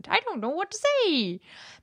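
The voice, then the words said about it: Imp character voice. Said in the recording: “That's my imp accent.”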